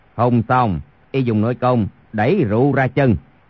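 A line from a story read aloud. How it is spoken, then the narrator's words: Lowered voice. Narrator (Vietnamese): Chu Thông hạ giọng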